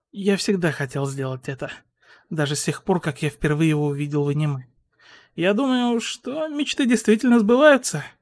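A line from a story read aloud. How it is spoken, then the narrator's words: Exhaling, then speaking. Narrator (Russian): Хитора выдохнул и сказал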